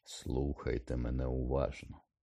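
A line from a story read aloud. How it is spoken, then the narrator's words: Very quiet and clear. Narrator (Ukrainian): сказав Дамблдор дуже тихо і дуже чітко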